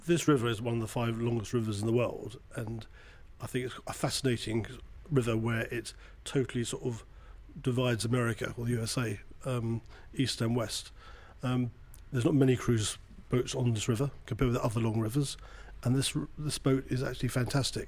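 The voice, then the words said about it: British London accent. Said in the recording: “that accent means you're not from here. ... I'm from the other side of the pond. ... London.”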